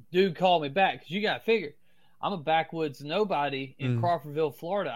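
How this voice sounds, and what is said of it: Strong Southern US accent. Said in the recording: “I have a real strong Southern accent. ... Like a hillbilly.”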